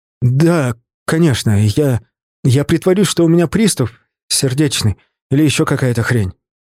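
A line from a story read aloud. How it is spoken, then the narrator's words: After a deep breath. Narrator (Russian): Сашка глубоко вдохнул, выдохнул и сказал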